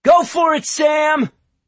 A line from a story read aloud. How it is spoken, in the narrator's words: a voice yelled in encouragement